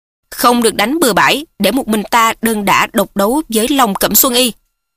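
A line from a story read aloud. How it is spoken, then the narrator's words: Loud shout. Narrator (Vietnamese): Mễ Đại Bưu quát lớn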